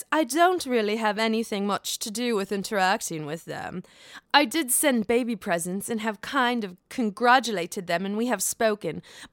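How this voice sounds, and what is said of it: Imitates another person's accent, poorly. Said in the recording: “Was that a good Vanderpump accent? I don't know. It probably sucked.”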